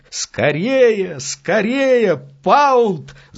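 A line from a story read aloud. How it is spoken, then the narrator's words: Breathless shout. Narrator (Russian): запыхавшись, кричал он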